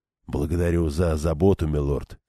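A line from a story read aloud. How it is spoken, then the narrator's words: Calm man. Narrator (Russian): спокойно ответил мужчина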